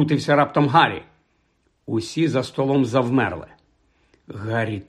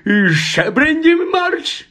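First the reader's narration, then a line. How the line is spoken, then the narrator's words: Pale uncle shrieking. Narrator (Ukrainian): заверещав страшенно зблідний дядько Вернон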